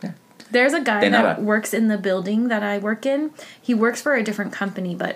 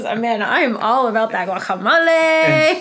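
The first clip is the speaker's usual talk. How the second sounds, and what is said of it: Put-on accent, said to be good. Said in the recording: “Good accent.”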